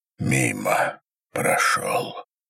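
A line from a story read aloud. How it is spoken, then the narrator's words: Hoarse, rusty voice. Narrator (Russian): сказал так сипло, будто заговорил впервые за неделю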